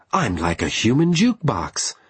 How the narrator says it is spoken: exclaimed Reiko

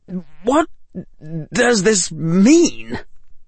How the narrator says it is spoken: Draco said, His voice wavered a bit

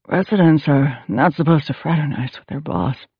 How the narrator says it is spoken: Evan said in a breathy voice

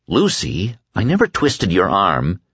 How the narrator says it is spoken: he said grimly

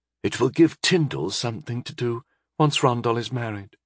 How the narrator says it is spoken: Pentandra whispered to me

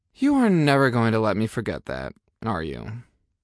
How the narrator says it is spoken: I sighed

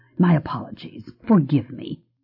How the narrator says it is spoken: still muttering

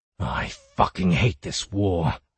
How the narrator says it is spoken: growled Fayhorn

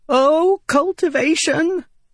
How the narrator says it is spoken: Windle cried

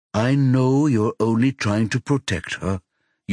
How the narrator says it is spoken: Yuna says calmly

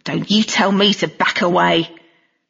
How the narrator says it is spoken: snarling

